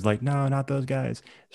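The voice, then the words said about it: Imitates another person's voice. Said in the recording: “That was really good. ... dead on Deb impersonation.”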